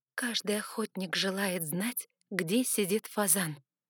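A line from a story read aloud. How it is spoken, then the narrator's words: Quiet. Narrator (Russian): негромко произнесла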